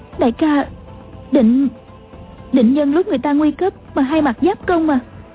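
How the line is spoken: Trembling question. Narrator (Vietnamese): A Châu run run hỏi

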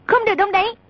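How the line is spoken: Shouting. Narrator (Vietnamese): A Tử quát

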